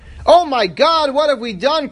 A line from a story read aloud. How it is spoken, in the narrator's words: cried one of the women diggers